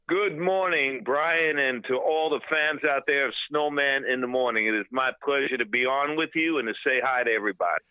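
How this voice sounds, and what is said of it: New York accent. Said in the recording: “I can hear that New York accent just bursting out of you”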